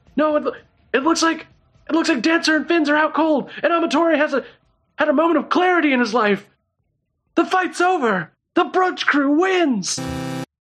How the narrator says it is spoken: trying desperately to calm down the crowd, goes

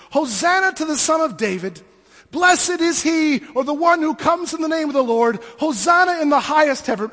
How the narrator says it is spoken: they were screaming

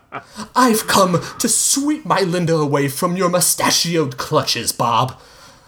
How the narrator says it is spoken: Hugo exclaimed

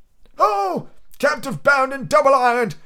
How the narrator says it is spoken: cried the phantom

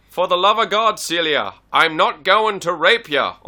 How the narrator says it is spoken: Henri cried

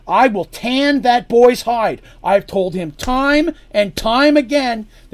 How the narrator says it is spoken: said Darsh angrily

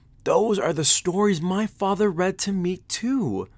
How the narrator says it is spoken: Evan exclaimed

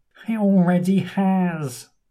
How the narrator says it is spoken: moans the man

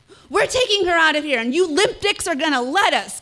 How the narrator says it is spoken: Kelly yelled

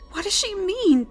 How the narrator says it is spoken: Pig pleaded of her friend

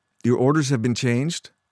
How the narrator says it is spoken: Bern asked

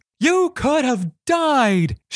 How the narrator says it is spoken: yelled

